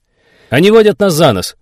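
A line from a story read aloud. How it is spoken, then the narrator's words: Exclaiming. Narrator (Russian): воскликнул майор Зимин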